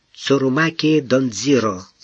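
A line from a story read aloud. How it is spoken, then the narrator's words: Whispered, orphan. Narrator (Russian): прошептал сирота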